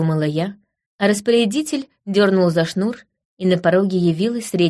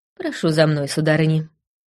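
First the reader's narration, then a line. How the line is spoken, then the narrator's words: Quiet voice. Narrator (Russian): негромко произнесла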